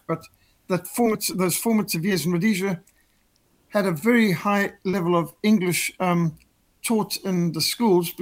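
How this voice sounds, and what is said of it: Rhodesian English accent. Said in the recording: “what's your accent? Are you from Australia? Are you from Britain? And no, I'm Rhodesian ... that's not a South African accent you've got ... my accent is actually more Rhodesian than South African”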